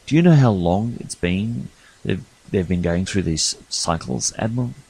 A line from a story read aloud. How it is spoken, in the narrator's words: Garrett coolly said